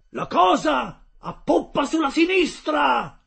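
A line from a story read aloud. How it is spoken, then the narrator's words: Harpooner shouting. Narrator (Italian): gridò il fiociniere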